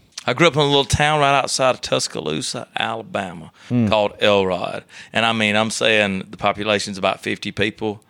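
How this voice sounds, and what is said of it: Slight Alabama accent. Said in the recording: “Still got a little of that Alabama accent”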